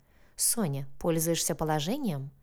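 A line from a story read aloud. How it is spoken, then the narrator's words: Mischievous snort. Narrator (Russian): Мужчина озорно хмыкнул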